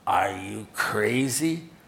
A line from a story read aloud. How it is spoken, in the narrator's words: sneered the other